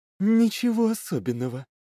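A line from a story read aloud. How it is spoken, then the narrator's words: Soft purr. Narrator (Russian): тихо промурлыкала Лилит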